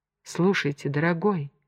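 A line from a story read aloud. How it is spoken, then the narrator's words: Soft female voice. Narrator (Russian): начала она мягко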